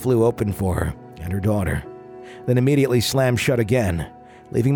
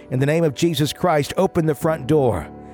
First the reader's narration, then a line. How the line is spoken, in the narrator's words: My aunt yelled